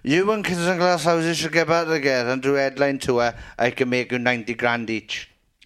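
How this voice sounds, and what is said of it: Drunken imitation of another person's voice. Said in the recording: “my totally sober impression of him”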